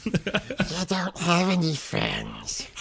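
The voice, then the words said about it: Gollum character voice. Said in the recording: “we just do the entire podcast in a terrible Andy Serkis impression ... is Gollum, I'm Smeagol ... we will recreate the scene”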